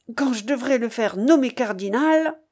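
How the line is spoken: Vexed exclamation. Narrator (French): s'écria-t-il avec dépit

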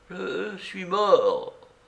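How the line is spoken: Weak beggar. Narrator (French): répondit faiblement le mendiant

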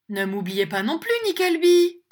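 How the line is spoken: Thin-faced gentleman shouting. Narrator (French): cria un autre monsieur au visage effilé

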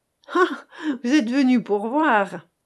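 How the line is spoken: Laughing. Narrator (French): fit Rarogne en riant

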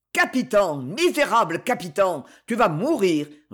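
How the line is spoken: Roared. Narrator (French): rugit Concini

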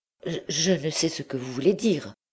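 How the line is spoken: Stammering. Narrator (French): balbutia Blétry

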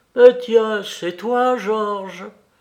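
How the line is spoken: Sudden exclamation. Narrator (French): soudain, elle s'écria à son tour

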